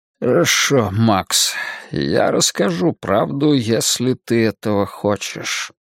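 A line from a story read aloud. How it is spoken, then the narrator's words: Muttering. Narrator (Russian): пробормотал он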